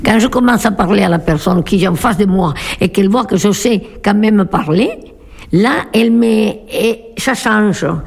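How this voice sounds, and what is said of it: Slight foreign accent in French. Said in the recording (French): “je suis l'étrangère qui parle avec un léger accent”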